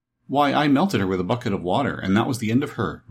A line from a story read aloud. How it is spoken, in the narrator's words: replied Dorothy